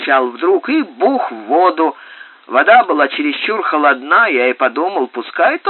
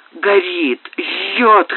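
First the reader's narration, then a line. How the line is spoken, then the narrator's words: Hoarse wheezing. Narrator (Russian): хрипела она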